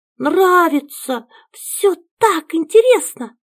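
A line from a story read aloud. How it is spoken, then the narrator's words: Excited little girl exclaiming. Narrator (Russian): воскликнула дочка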